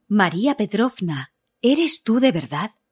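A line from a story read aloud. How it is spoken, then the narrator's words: Exclaiming. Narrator (Spanish): exclamó Alexandra Pavlovna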